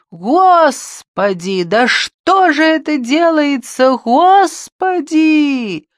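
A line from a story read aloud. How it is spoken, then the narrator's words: Hysterical woman wailing nearby. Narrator (Russian): вопил неподалеку истеричный женский голос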